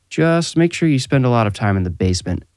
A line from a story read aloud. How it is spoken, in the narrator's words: Clint said